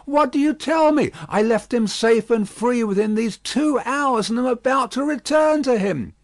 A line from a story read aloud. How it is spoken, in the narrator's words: Struck with consternation, the old gentleman exclaimed